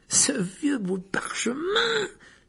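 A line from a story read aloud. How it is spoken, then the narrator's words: Offended, indignant exclamation. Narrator (French): s'exclama Fred avec une grimace, comme si Harry venait de l'offenser gravement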